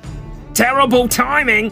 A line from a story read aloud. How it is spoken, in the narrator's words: shouted Ajax as he sprinted down the corridor to the gunner deck